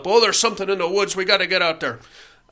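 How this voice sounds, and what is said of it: Poor put-on Irish accent. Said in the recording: “That's a terrible Irish accent.”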